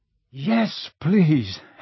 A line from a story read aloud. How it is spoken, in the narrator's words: Harry panted